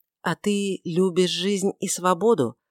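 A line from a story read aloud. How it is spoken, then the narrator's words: Gentle question. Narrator (Russian): спросила Магдалина мягко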